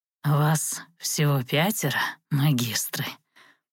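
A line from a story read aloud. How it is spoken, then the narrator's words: Creaky smirking old voice. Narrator (Russian): с усмешкой проскрипел архимаг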